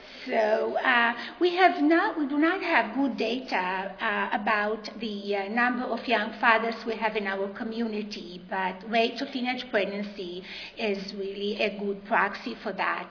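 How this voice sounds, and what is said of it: Texas accent. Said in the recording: “I'm sure that you can tell right away that I'm from Texas based on my accent”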